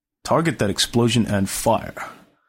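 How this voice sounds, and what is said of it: Imitates another person's voice. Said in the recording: “my George Takei impression ... That was George Takei.”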